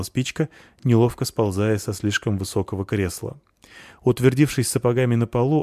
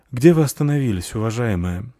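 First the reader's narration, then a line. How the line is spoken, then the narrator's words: Resigned sigh, defeated. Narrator (Russian): вздохнул, признавая свое поражение, верховный служитель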